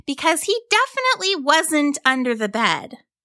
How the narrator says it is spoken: Rory said firmly as we began to climb

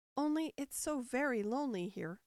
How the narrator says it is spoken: Alice said in a melancholy voice, and at the thought of her loneliness, two large tears came rolling down her cheeks

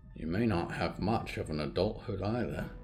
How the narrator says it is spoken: Anderson muttered

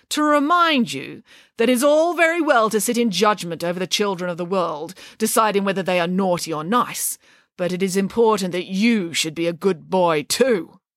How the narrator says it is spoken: said Nanny Piggins sternly

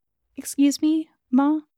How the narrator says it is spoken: said timidly

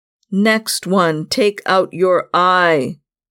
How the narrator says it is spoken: growled

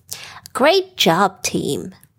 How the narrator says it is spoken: Ellie trumpeted, her voice filled with pride

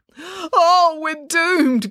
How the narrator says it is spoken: groaned Dad

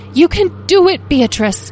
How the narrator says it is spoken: Talora shouted

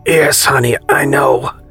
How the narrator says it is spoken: Peter replied with an almost silky yet croaky voice, a byproduct nonetheless of his premature awakening on a Saturday

